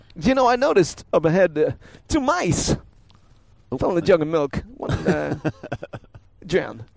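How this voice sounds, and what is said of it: Christopher Walken impression. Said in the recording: “terrible Chris Walken impression. ... It's not bad.”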